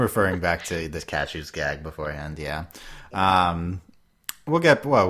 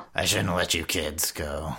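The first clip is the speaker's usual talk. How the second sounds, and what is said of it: Raspy, miserable character voice. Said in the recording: “Qrow's a little raspier ... he's just uh, miserable.”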